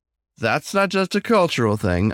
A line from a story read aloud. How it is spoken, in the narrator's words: I chuckled